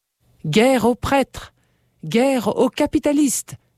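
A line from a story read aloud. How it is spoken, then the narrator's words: Exclaiming. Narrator (French): s'écrie-t-il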